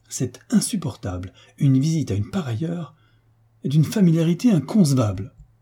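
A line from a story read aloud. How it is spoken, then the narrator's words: Indignant outcry. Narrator (French): Au nom du marquis, le baron s'écria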